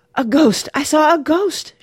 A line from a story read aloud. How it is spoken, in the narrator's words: she was gasping